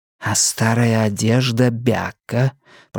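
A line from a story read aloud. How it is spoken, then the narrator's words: Tireless whispering. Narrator (Russian): продолжалось неутомимое нашептывание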